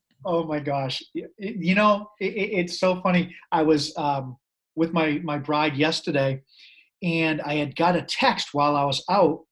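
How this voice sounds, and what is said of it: Upper East Coast American accent. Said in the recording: “his incredible Upper East Coast accent”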